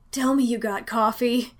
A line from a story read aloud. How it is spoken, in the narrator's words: Danny gasped